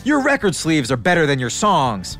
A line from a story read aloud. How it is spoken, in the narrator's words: David the nerd screams after him